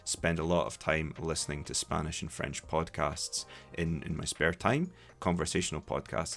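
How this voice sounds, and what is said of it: Scottish-accented English. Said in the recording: “with a bit of a Scottish twist ... my accent ... a bit of a different accent ... Scottish English”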